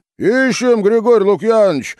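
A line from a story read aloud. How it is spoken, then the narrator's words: Cheerful distant shout. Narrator (Russian): весело закричал с крыльца Федька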